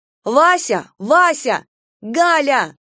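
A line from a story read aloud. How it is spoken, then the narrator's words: Shouted after someone. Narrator (Russian): крикнула ему вслед Таня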